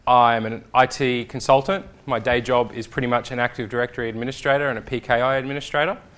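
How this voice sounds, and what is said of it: Australian accent. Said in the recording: “If you might have told by the accent, I'm from Australia.”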